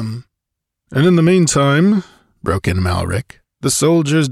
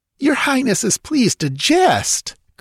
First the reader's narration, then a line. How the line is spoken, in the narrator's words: cried Thespides, his aristocratic features darkening